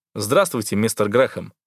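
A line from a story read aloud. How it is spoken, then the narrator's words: Formal tone. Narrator (Russian): официальным тоном приветствую я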